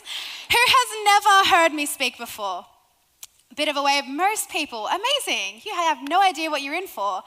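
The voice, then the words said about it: Australian accent. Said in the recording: “I'm not from here. I may have a bit of an accent. Who likes the Australian accent? ... I love your accent. ... We're from Sydney, Australia.”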